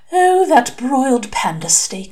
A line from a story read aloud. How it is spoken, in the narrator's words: sighed Virginia Boot, her mouth watering at the memory